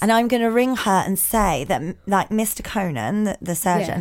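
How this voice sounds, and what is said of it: Usual voice. Nothing is said of it.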